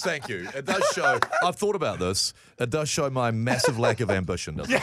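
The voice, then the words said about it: Deep, attractive male voice. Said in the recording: “your voice is so sexy ... It's deep.”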